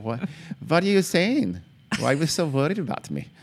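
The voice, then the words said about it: Poor put-on German accent. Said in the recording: “Not a good accent? ... Not at all. ... I'm not good at accents. ... whenever anybody does a German accent, they're they raise their voice three octaves.”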